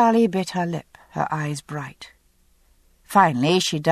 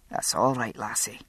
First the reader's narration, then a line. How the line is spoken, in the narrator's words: Jamie said gruffly